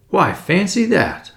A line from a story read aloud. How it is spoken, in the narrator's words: I exclaimed